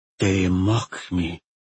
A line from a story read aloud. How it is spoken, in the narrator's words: he said quietly